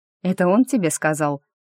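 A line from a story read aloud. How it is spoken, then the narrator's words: Skeptical snort. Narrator (Russian): Скептически хмыкнула я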